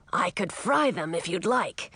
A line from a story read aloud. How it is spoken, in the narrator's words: the dragon suggested